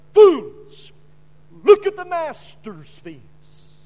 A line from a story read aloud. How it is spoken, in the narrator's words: he cried